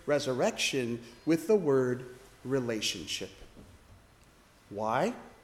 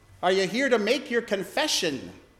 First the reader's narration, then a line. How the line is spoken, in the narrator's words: I called out